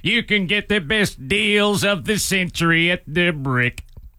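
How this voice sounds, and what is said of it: Imitates a TV commercial pitchman. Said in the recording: “I always used to do the Brick guy impression... I just make fun of the guy. I do my impression of the guy... Not a very good impression.”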